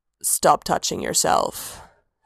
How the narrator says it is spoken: Sanguine rumbled

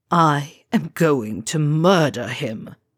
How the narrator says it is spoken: Draco snarls

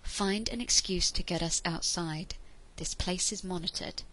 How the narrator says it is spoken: said quietly

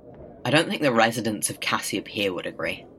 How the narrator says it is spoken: says, coolly offhanded

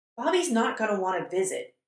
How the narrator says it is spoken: Dean blurts out

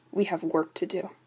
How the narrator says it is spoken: he mumbled

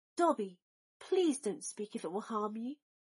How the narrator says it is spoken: pleaded Draco

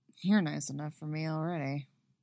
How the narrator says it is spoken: she hears him murmur

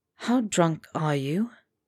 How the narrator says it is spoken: Potter said softly

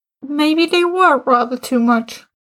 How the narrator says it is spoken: Martin said, and broke into laughter

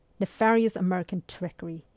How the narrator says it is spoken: he muttered

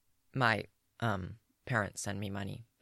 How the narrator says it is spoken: he says quietly

